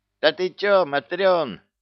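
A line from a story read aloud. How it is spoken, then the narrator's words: Neighbor shouting from across. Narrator (Russian): орала соседка с противоположной стороны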